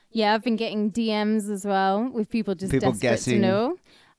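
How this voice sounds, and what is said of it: Slight Camden twang. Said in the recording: “accent... a bit of Camden twang”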